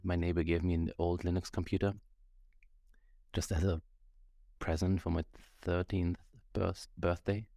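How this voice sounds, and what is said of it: German-accented English. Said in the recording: “There's the German accent coming out, yeah... the three is a difficult thing to pronounce for me”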